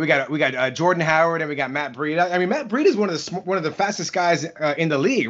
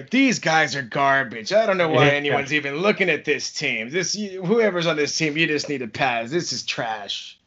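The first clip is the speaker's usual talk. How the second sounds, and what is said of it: Imitates another person's voice. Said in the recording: “That's my Rick impression.”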